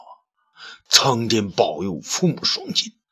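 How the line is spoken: Sighing. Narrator (Chinese): 雷劈叹道

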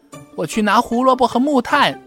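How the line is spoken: Calling out. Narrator (Chinese): 跳跳叫道

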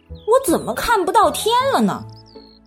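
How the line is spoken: Crying out. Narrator (Chinese): 他叫了起来

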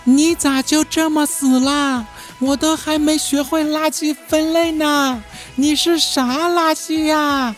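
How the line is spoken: Heartbroken sobbing mumble. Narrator (Chinese): 小雨 养的小仓鼠死了，他哭的那叫一个撕心裂肺啊，边哭边嘟囔着

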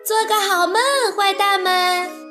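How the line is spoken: Laughing reply. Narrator (Chinese): 卡门笑着回答

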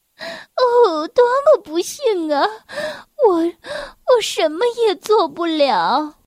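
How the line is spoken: Crying. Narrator (Chinese): 忙碌小姐哭着说

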